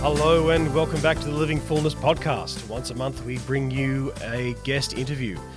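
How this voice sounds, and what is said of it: Congested voice with a cold. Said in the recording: “' voice sounds ridiculous, it does indeed... I have a bit of a cold... there is a bit of a cold going on here”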